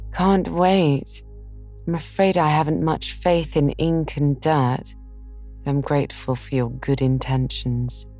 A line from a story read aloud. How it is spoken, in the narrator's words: Meg sighed